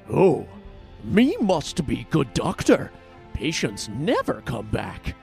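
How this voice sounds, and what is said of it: Deliberately bad cartoonish monster voice. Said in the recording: “my terrible impression ... I'm getting some Scooby-Doo vibes”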